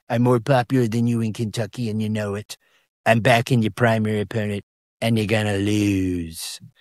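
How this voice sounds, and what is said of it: Pretty good Donald Trump impression. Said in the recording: “doing a pretty good Trump impression”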